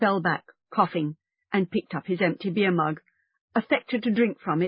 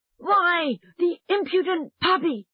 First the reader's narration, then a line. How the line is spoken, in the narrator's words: Gaffer shouted